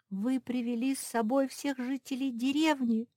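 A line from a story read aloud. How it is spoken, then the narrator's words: Laughing. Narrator (Russian): засмеялась Мафи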